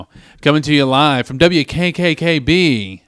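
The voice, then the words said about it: Nasal radio-announcer voice. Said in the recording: “I do the nasally one now”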